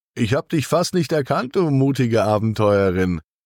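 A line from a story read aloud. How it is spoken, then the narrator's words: Laughing call. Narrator (German): ruft er lachend zu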